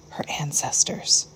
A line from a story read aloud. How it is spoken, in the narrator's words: she whispered, with a wink and a smile